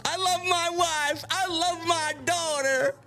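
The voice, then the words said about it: Exaggerated hick voice. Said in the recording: “he said it in his hick voice.”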